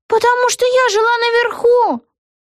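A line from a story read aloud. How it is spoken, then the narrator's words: Hopeless exclamation. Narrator (Russian): воскликнула Вега, чувствуя, что все бесполезно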